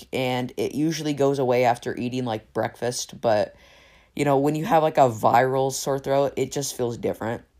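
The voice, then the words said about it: Slightly raspy voice. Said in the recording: “you may be able to tell my, my by my voice that's a little bit raspy today”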